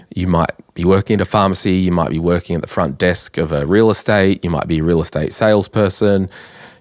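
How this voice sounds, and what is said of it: Nasal, congested voice. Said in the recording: “excuse my voice, it's still nasally”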